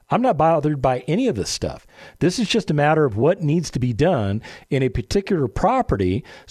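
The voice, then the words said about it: Calm, unbothered voice. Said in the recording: “can you hear the calm in my voice?”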